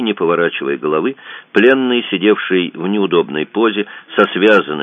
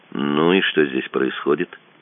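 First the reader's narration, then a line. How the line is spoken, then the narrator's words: Calm, mildly defiant question. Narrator (Russian): спросил пленный, не особенно вызывающий, но все равно неуместным в его положении спокойным тоном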